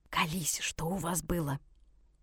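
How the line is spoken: Whisper to avoid eavesdroppers. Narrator (Russian): Катька перешла на шепот, потому что девчонки с соседнего ряда заинтересованно прислушивались к нашему разговору

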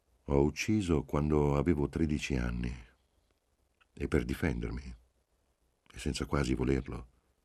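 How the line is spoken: Calm voice. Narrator (Italian): Disse con voce calma

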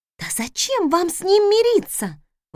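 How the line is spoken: Exclamation. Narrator (Russian): воскликнула Раиса

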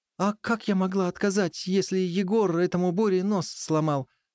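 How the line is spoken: Exasperated exclamation. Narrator (Russian): в сердцах воскликнула

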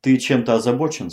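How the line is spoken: Plain. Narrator (Russian): спросила она

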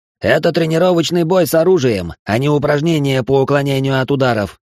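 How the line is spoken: Shouted. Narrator (Russian): крикнул Мейсон

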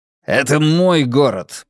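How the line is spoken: Growled. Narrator (Russian): прорычал Брекер

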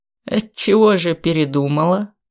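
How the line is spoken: Amused grunt. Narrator (Russian): Дубрав хмыкнул

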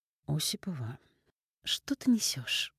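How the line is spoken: Warningly calm. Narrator (Russian): Голос Татьяны Михайловны звучал предостерегающе спокойно

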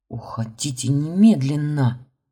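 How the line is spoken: Urgent hiss. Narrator (Russian): зашипела

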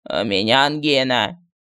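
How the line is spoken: Hoarse. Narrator (Russian): хрипло заявил медальон

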